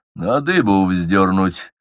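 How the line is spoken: Grim joke. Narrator (Russian): мрачно пошутил Петр

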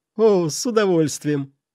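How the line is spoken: Laughing. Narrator (Russian): рассмеялся ювелир

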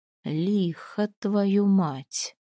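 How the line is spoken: Drawl. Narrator (Russian): протянул Свинельд

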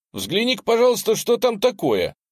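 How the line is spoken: Shouting. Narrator (Russian): я крикнул Джиму

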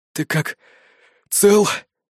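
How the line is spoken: Hoarse. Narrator (Russian): прохрипел я

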